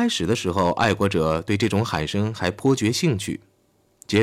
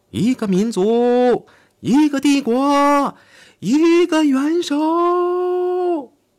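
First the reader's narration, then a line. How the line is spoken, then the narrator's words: Crowd shouting. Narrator (Chinese): 他们高喊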